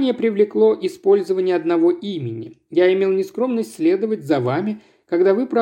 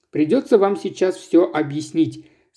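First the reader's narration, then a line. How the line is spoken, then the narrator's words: Plain. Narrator (Russian): сказал ей собеседник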